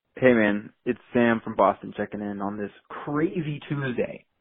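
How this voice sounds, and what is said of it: Radio voice, no Boston accent. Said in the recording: “he doesn't have a Boston accent. He does have a radio voice”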